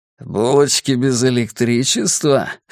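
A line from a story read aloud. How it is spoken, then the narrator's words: Snorting. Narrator (Russian): хмыкнул он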